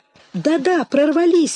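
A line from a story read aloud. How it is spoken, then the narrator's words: Exclaiming. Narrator (Russian): воскликнула Ревекка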